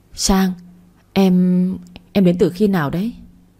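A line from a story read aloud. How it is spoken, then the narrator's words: Stammering, shaken. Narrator (Vietnamese): Hảo hoàng hồn lại, lắp bắp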